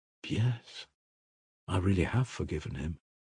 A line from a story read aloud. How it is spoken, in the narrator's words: Grushenka murmured thoughtfully